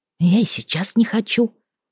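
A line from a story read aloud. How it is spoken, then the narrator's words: Whisper. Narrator (Russian): порадовала я его тоже шёпотом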